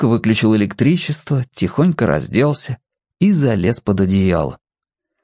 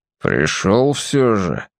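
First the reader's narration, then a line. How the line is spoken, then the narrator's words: Muffled, hollow. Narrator (Russian): глухо сказал он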